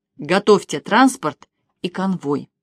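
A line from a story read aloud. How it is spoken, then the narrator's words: Strained, iron-voiced command. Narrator (Russian): Леня напрягся в последний раз и железным голосом произнес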